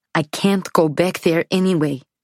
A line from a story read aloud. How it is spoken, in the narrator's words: she says, suddenly, fiercely